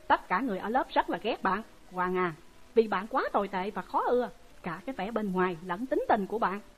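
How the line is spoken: Harsh. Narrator (Vietnamese): Tina gằn giọng

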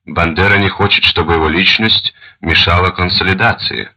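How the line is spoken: Plain. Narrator (Russian): ответил он

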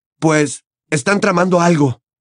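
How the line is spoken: Exclaiming. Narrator (Spanish): exclamó Harry, apretando los puños

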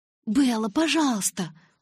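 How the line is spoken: Pleading. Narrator (Russian): взмолилась Джессика

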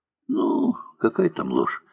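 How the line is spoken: Soft speech. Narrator (Russian): мягко сказал Андрей Андреевич

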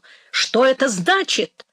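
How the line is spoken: Shouting. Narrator (Russian): крикнул

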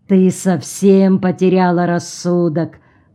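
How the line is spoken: Grumbling. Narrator (Russian): проворчал Орво

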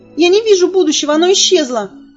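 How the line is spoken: Squeaky voice. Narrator (Russian): пропищала Элис

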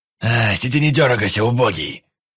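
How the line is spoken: Rough, hoarse snarl. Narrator (Russian): Рыкнул тот, что сидел слева, грубым и сиплым голосом

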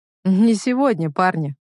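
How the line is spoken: Amused snort. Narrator (Russian): хмыкнул Илья

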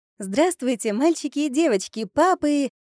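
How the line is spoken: Joyful rapid chatter. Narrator (Russian): радостно затараторила я

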